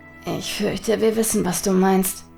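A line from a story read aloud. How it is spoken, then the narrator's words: Murmur. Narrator (German): murmelte Hotake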